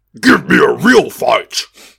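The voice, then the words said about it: Jarringly British monster voice. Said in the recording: “A monster with a really jarringly British accent.”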